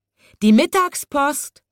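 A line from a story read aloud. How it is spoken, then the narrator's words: Calling out. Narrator (German): rief er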